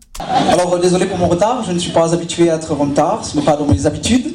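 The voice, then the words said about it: Put-on German accent in French. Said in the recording (French): “mon petit accent, je, euh, ne suis pas breton, je suis, allemand”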